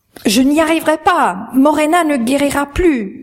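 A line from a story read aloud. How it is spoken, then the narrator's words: Desperate shout. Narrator (French): cria-t-il, pris de désespoir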